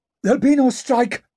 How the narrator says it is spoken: gasped Gaunt

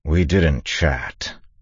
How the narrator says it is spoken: Kanawa said grimly

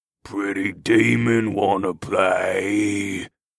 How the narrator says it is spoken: The troll rumbled

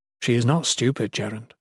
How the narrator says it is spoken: Jen informed him gently

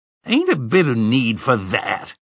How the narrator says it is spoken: the old man said, his voice cracking with indignation

